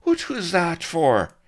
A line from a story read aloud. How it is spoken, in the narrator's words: cried Blood